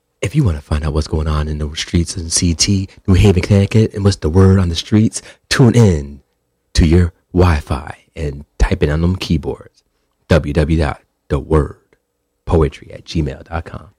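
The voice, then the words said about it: Radio announcer voice. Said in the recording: “my radio voice... that radio announcer voice”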